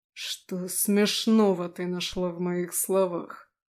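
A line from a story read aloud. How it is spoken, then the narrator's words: Hissed angrily, demon. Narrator (Russian): Злобно сощурившись, прошипел демон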